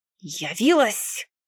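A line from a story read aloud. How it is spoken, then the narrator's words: Hissed. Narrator (Russian): прошипел Фликс, тот, который старший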